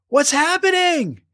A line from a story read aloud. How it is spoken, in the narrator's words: cried Abigail